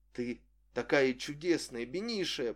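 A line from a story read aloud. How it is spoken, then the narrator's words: Repeating. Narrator (Russian): повторял он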